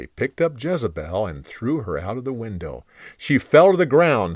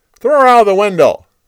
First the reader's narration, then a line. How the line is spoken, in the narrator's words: Jehu yelled